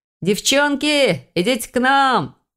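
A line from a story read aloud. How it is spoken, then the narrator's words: Young man shouting. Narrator (Russian): крикнул какой-то парень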